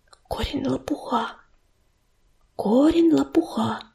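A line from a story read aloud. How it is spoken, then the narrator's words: Whispering. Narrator (Russian): шептала она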